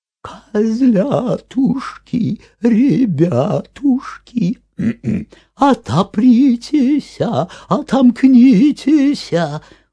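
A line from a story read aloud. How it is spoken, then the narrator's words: Wolf singing in thin voice. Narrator (Russian): А волк и запел тоненьким голоском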